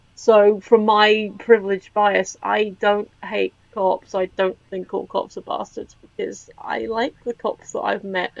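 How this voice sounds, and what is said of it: British English accent. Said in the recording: “this isn't an affected accent. I am a British person living in England.”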